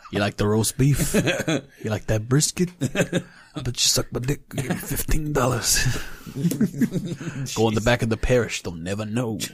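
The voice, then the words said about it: Poor attempt at Missouri accent. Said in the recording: “I don't know what a Missouri accent is. Is it like Missouri? ... I don't know what you were doing, but it's definitely not it.”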